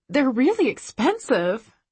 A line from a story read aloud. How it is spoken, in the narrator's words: I gasp